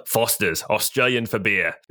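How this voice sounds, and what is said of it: Put-on Australian accent. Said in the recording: “I can actually kind of do an Australian accent.”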